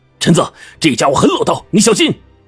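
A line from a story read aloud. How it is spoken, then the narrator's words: Shouting from behind. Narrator (Chinese): 邱队在后面喊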